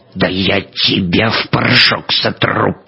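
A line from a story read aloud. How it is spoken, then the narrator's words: Furious, through gritted teeth. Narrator (Russian): процедил разъяренный Клейн-Михель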